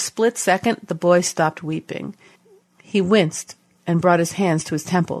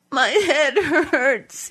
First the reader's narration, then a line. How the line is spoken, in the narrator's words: he said, sobbing